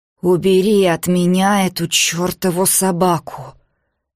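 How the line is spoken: Hoarse muffled whisper. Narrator (Russian): хрипло прошептала она из-под шарфа

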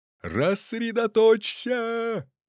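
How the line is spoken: Wild bellowing yell, hitting ground. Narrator (Russian): Диким голосом возопил прапор, плюхаясь на земь

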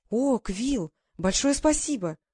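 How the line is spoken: Excited female exclamation. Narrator (Russian): воскликнула она

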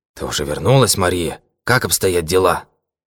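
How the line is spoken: Hoarse, anxious question. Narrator (Russian): Хриплым, полным беспокойства голосом он спросил

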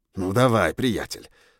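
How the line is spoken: Hiss. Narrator (Russian): зашипел я на него

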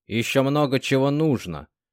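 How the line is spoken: Grumbling. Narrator (Russian): проворчал Морев

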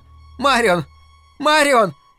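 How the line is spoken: Shouting. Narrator (Russian): закричала Луиза

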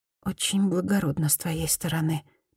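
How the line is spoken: Mumbled. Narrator (Russian): пробормотала Мияко

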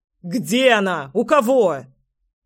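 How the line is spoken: Furious yelling. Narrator (Russian): Я уже орал, готовый сорваться с места и крушить все вокруг

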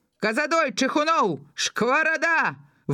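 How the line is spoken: Officer calling out names. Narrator (Belarusian): выкрыкнуў афіцэр прозвішчы міліцыянераў

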